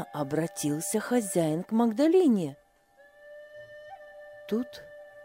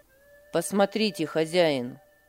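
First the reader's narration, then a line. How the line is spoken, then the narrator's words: Firm respectful tone. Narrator (Russian): Сказал он твердым и вместе с тем почтительным тоном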